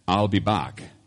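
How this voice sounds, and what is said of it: Austrian-accented Terminator impression. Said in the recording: “in an Austrian accent ... The Terminator”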